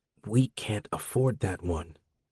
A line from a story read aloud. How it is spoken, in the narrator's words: Mero whispered